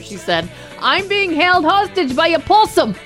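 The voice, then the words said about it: Poor put-on Australian accent. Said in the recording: “That's not a very good Australian accent”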